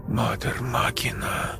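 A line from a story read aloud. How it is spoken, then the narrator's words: Whisper. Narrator (Russian): прошептала Настя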